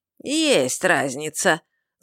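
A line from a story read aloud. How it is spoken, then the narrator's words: Vicious snarl. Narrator (Russian): злобно ощерился этот самый Мар, кто-то там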